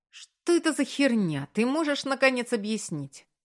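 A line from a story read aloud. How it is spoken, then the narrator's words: Furious, sharp question. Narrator (Russian): Маркус взбесился еще больше и резко спросил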